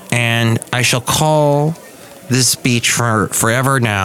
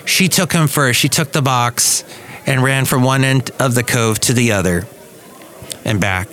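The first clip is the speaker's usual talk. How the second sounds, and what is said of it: Slightly choked-up, emotional voice. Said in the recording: “I'm kind of getting choked up a little bit right now”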